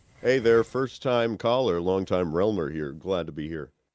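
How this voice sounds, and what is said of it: Rich radio announcer voice. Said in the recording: “that's a really radio voice you've got. ... Pipes.”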